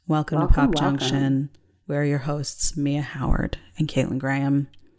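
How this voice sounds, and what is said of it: Serious public-radio announcer voice. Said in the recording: “I'm trying to do like my NPR voice, you know, like it's very serious”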